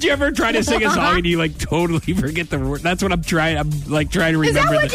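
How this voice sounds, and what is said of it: Usual voice. Nothing is said of it.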